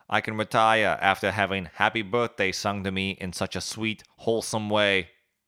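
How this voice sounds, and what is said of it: JFK impression, bland accent. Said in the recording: “I really feel like I can rock that accent. It's just really mundane and bland.”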